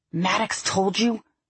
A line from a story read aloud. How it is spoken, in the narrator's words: she hissed